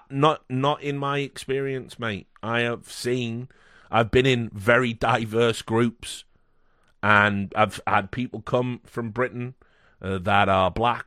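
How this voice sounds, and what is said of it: British accent. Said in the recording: “you're a white man with a British accent”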